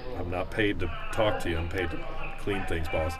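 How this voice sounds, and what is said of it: Very deep voice, country accent. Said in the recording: “Did your voice get even deeper from before? ... did you develop a country accent?”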